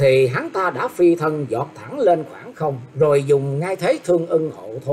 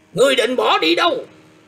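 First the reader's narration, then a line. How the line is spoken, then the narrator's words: Loud shout. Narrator (Vietnamese): có một người che mặt trong bọn quát to lên rằng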